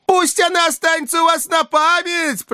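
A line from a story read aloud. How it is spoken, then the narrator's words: Loud shout. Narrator (Russian): прокричал Фагот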